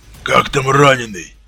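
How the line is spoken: Open hoarse rasp. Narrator (Russian): Совершенно не таясь, прохрипел названный полковником человек

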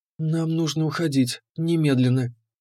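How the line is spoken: Firm. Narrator (Russian): Она твердо сказала

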